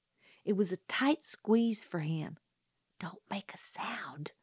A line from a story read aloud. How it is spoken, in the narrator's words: he whispered